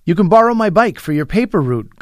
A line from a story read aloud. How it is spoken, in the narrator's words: Kareem blurted